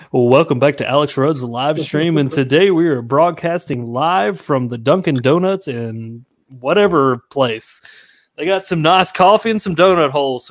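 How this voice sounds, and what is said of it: Exaggerated radio announcer voice. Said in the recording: “I'm going to do the radio voice.”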